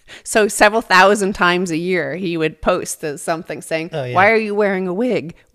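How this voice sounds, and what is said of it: American accent. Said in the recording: “why are you putting on that American accent? ... this is our accent”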